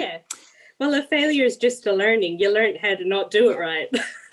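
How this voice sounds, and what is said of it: Irish accent. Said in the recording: “it's a nice Irish accent”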